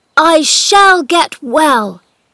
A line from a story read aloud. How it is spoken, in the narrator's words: cried out